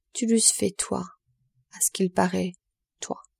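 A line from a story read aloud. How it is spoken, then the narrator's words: Priest muttering to himself. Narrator (French): se dit tout bas l'abbé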